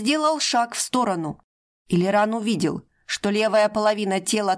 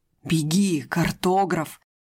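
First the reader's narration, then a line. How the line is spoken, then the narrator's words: Hiss splitting into many whispers. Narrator (Russian): прошипел Тарик, и его голос расслоился на десятки шепотов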